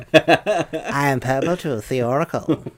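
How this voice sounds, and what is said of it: Purple Tooth oracle character voice. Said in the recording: “Purple Tooth has a voice like that, but it's a bit like the old Campbellian voice”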